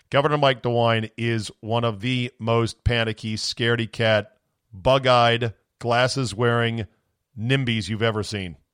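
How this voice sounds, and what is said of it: Strained, fading voice from screaming. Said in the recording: “my voice is going because I'm screaming”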